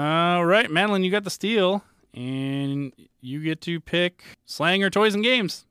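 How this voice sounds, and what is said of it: Usual voice. Nothing is said of it.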